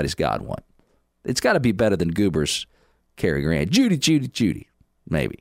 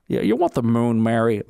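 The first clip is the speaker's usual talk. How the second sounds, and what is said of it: Bad Jimmy Stewart impression. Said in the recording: “my very bad Jimmy Stewart impression”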